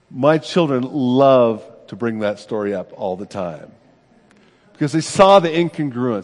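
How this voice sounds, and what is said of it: Usual voice. Nothing is said of it.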